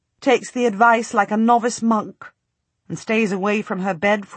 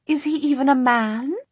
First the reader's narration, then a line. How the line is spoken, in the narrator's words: she hisses scornfully, not glad at all